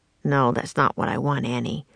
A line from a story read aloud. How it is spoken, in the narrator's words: Jack said under his breath